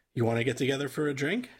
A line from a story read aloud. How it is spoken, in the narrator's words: I asked